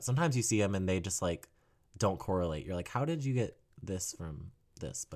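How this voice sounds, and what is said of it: Low, sick-sounding voice. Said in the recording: “I'm a little sick right now, so my voice is very low”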